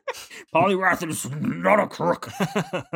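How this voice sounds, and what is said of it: Imitates another person's voice. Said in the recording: “that your Nixon impression again?”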